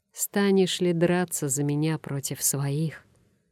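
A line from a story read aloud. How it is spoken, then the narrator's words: Even-voiced question. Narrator (Russian): воевода спросил ровным голосом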